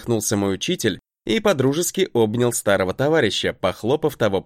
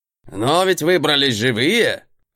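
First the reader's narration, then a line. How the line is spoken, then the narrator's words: Scoffing grunt. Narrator (Russian): Хмыкнул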